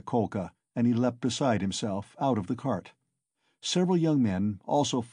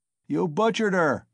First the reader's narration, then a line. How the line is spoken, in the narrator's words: someone shouted in the crowd